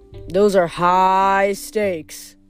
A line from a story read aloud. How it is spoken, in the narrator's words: Phineas grumbled